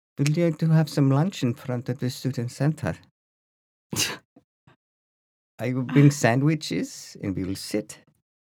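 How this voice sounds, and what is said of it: Put-on Dutch accent. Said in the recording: “This is a Dutch accent. This is how this is a studied Dutch accent.”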